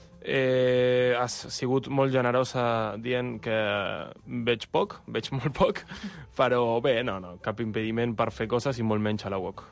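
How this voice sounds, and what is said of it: Argentine accent speaking Catalan. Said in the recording (Catalan): “tens un accent... Jo soc d'Argentina”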